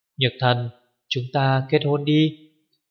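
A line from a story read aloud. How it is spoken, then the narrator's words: Soft. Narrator (Vietnamese): Cố Duệ khẽ nói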